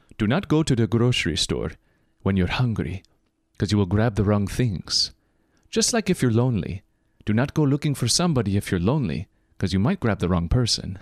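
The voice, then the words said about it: Imitated accent of online speaker. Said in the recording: “I'll even do his accent for you... That was kind of close. Not the best, but kind of close.”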